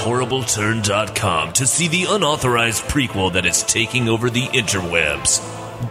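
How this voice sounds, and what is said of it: Dramatic movie trailer voice. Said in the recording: “do the movie voice thing”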